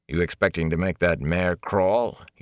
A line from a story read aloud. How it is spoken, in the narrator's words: he said dryly